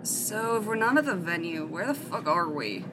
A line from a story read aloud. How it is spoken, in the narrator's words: Matt grumbled